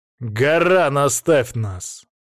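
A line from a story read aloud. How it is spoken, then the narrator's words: Commanding imperious tone. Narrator (Russian): сказал я повелительным тоном, достойным императора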